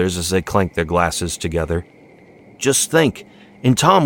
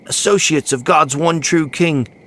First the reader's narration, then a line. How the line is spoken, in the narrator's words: exclaimed Jimmy